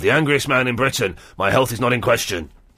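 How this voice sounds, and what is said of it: Imitates another person's voice. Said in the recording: “You sounded just like him. ... a good impression ... fantastic”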